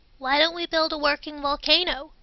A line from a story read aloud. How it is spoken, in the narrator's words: Martin Hutches chirped from a neighboring desk